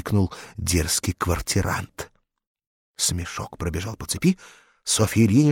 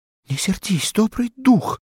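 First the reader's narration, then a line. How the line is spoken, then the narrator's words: Pleading. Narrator (Russian): взмолилась она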